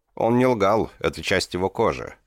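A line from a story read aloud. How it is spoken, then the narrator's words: Plain. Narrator (Russian): сказал Димвак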